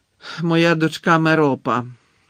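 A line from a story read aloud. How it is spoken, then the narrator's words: Reluctant grumble. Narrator (Ukrainian): неохоче буркнув Гонт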